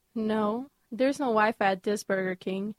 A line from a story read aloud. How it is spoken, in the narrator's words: he replied